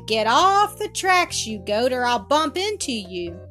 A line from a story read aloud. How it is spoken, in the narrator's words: The motorman cried